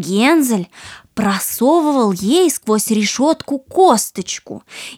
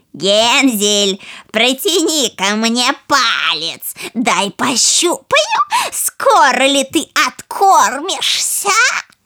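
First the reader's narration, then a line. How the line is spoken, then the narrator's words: Old woman shouting. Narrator (Russian): старуха кричала ему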